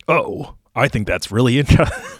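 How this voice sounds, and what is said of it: Imitates another person's voice, very deep. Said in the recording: “I made him really deep”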